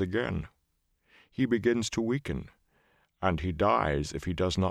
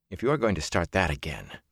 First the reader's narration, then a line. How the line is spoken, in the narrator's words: Matt muttered